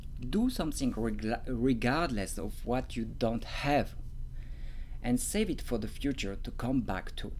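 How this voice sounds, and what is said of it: French accent in English. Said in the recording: “I'm not very, very into the French accent in English... you don't dislike my accent”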